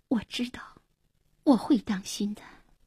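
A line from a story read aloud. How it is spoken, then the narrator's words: Soft, tearful. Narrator (Chinese): 黄英默然，眼里闪着泪光，轻声说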